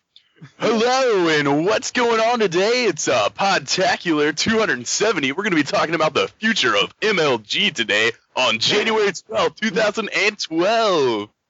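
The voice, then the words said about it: Radio announcer voice. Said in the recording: “radio announcer voice”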